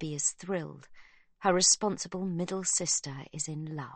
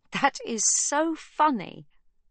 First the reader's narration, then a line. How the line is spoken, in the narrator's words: Sibby bursts out laughing